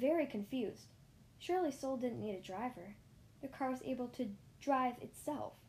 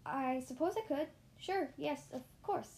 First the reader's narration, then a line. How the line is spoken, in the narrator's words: I stammered